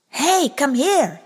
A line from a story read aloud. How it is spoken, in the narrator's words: yelled